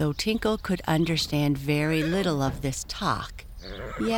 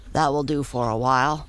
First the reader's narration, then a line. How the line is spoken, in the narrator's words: said Tom